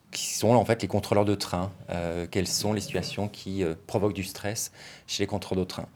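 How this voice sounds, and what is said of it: French accent from France. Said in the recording (French): “à mon accent, tu sais que je suis français, même si je travaille à Genève”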